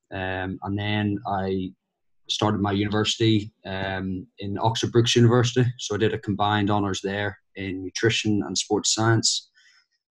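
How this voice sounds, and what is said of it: Northern Irish Belfast accent. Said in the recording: “as you can tell from the accent, I'm originally from Belfast”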